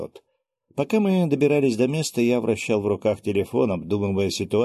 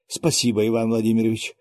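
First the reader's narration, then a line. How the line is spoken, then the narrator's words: Relieved sigh. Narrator (Russian): с облегчением вздохнул Завьялов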